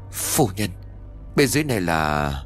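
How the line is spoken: Stammering. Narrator (Vietnamese): Cao Viên ấp úng

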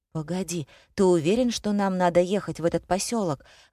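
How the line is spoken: Anxious question. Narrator (Russian): взволнованно спросила Лена

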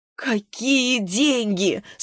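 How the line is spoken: Moaning again. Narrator (Russian): снова простонала Глафира

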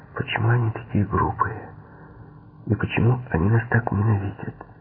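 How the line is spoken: Whispered. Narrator (Russian): Девушка прошептала

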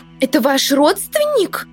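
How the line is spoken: Expressive exclamation. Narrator (Russian): воскликнула экспрессивная Милли Троуд

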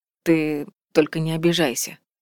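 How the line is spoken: Soft, gentle. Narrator (Russian): мягко начал он

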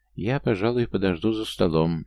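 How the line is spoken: Mumbled. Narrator (Russian): наконец помямлила она

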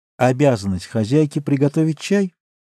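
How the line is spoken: Half-questioning, half-asserting tone. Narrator (Russian): сказала она свойственным ей полувопросительным, полуутверждающим тоном

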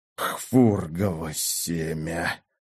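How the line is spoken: Groaning while coughing. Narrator (Russian): простонал Фердинанд, попутно выкашливая из стремительно восстанавливающихся легких черную слизь

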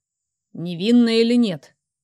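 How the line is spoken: Impatient growl. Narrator (Russian): нетерпеливо рыкнул

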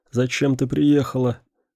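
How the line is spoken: Effortful hoarse rasp. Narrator (Russian): прохрипел, набравшись сил, Феликс

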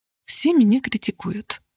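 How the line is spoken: Mutter. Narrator (Russian): пробормотала я

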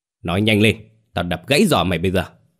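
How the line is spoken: Shouting. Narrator (Vietnamese): Chú quát

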